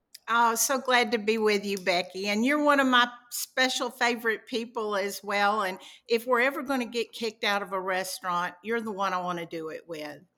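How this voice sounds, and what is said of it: Southern American accent. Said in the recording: “she has this glorious Southern accent ... You do a little bit there, girl. ... Just a little bit.”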